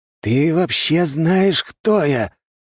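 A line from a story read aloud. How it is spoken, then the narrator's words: Breathed out. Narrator (Russian): выдохнул князь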